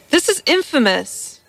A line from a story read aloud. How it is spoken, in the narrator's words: cried Giuseppe del Giovine in an outburst that shook him from head to foot